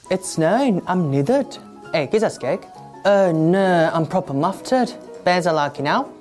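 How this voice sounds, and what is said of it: Put-on Hull accent. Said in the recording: “Korean Billy doing his Hull accent ... that's Korean Billy doing Hull”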